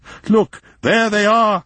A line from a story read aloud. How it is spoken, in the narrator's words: shouted von Eaglefeld excitedly